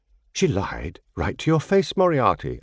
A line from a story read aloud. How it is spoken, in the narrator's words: I exclaimed